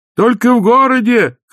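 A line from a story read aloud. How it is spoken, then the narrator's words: Shouting over roaring noise. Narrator (Russian): крикнул Лапсанг, перекрывая спутную струю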